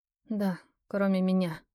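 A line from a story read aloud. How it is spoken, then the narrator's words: Muttering under breath. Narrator (Russian): пробормотала я себе под нос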